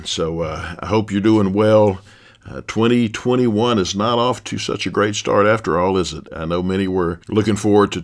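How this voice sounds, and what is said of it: Stuffy congested voice. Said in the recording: “My voice is off some today. I'm battling a cold. ... I'm just kind of stuffy, ears stopped up”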